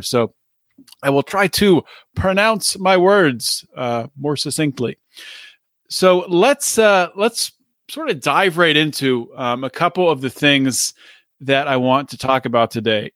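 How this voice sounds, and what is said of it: Strained, failing voice. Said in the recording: “I guess my voice is giving out on me here”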